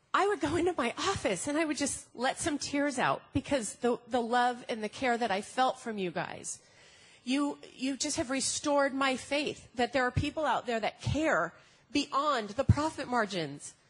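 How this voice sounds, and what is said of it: Emotional, teary voice. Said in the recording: “I'm going to get emotional again. I'm sorry. I'm very emotional.”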